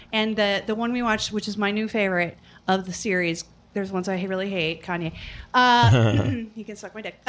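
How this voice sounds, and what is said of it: Voice starting to give out. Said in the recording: “My voice is starting to go.”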